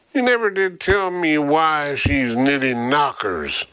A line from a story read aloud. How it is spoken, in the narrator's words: Burke chuckled